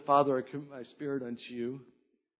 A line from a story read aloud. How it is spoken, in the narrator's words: He said